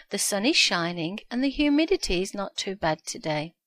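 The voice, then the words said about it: Birmingham English accent. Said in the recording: “I still have my Brummie accent”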